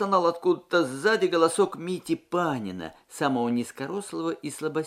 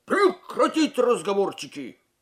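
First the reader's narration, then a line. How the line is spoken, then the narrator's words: Barked command. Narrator (Russian): рявкнул сержант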